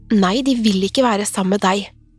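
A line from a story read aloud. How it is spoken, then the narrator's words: Sudden exclamation. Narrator (Norwegian): utbrøt hun plutselig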